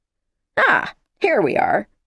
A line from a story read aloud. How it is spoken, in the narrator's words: Ryerson said brightly